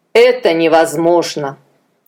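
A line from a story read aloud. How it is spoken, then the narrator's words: Sighing. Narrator (Russian): Адонирам вздохнул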